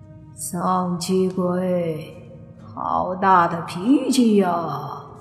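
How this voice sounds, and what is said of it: Gloomy, sinister character voice. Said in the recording (Chinese): “轿子里一个阴沉的声音说”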